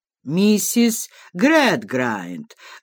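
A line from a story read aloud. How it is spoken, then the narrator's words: Menacing demand from husband. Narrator (Russian): грозно вопросил ее супруг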